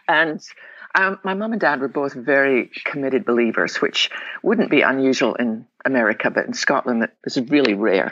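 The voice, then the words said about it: Scottish accent. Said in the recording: “I was born in the west coast of Scotland. Probably tell them my accent.”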